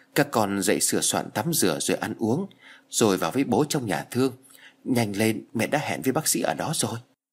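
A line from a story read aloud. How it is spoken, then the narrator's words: Mother, soft, tearful. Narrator (Vietnamese): Mẹ nó lệ ướt lưng tròng, vì thầm khóc đã mấy đêm nay, chỉ nhỏ nhẹ rồi nói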